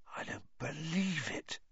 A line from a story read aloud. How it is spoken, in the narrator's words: he said hoarsely